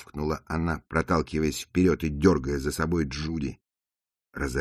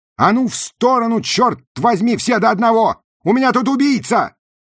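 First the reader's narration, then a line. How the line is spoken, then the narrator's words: Shouting. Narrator (Russian): крикнула она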